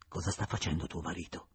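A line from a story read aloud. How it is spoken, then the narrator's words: Plain question. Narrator (Italian): chiese Julien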